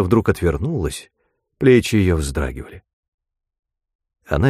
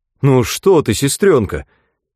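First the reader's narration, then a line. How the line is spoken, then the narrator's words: Exclaiming. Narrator (Russian): воскликнул Клайд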